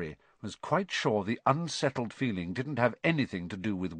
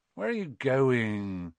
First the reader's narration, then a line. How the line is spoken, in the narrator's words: said Ron sleepily